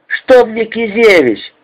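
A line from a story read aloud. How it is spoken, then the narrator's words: Irritated shout over din. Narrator (Russian): сквозь грохот раздраженно закричал Маркин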